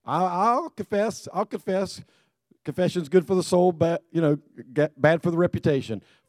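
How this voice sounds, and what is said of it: Hoarse, strained voice. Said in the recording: “hoarse for yelling ... You know why my voice sounds like this? ... I was screaming ... I need a voice tomorrow”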